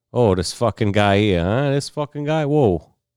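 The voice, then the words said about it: Put-on Italian-Irish mixed accent. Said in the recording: “an Italian sounding accent ... That sounds Italian? ... Italian and Irish. ... a little mix of both”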